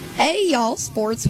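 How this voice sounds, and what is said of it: Southern accent. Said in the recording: “I don't know why I got the y'all ... Why do you talk Southern?”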